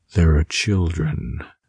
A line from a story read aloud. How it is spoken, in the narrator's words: the green llama said mournfully